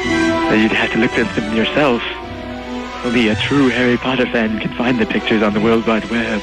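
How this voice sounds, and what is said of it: Spooky ghost-like voice. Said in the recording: “talking like a ghost”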